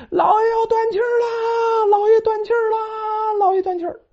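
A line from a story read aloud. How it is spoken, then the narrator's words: Crying shout while running. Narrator (Chinese): 张三哭了，一边跑一边喊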